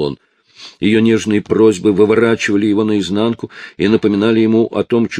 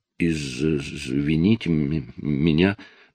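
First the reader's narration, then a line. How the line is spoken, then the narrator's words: Stammering. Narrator (Russian): проговорила Анжелина, заикаясь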